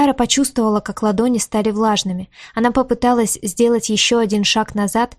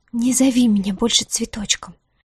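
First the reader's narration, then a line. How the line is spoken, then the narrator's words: Trembling voice. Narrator (Russian): проговорила она дрожащим голосом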